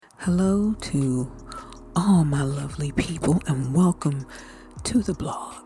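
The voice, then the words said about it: Whispering. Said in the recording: “why is she whispering? I'm whispering because it's Sunday night and it's late”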